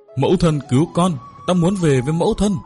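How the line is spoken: Tearful whimpering. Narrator (Vietnamese): Tiểu thư mếu máo

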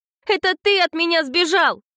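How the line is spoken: Echoing shout. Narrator (Russian): закричала я, и крик эхом отскочил от нарядного фасада гостиницы

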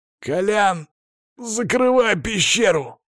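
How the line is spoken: Shout through sharp pain. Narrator (Russian): сквозь режущую боль крикнул я

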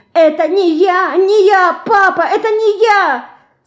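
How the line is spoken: Hysterical high-pitched pleading scream. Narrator (Russian): забившись в истерическом плаче, Муха тоненько закричала, словно моля о помощи

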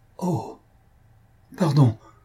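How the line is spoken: Stammered. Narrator (French): balbutia M

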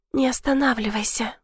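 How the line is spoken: Muttered. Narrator (Russian): бормочу

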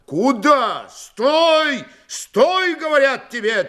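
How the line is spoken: Futile shouting. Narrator (Russian): тщетно кричал Григорий

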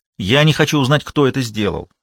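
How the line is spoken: Irritated. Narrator (Russian): раздраженно сказала Шарлотта

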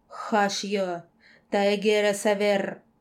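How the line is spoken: Growled. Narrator (Russian): прорычал Сонхейд

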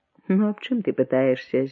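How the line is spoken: Gentle reproach, smiling. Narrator (Belarusian): з мяккім папрокам усміхнулася яна

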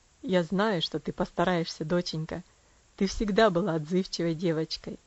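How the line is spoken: Tender. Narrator (Russian): нежно произнес он

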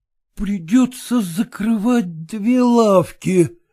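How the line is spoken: Dejected, sickly voice. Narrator (Russian): повторил Зваров упавшим болезненным голосом

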